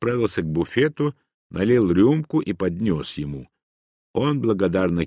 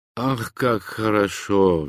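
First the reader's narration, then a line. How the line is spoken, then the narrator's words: Sigh. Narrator (Russian): вздохнул Ганилон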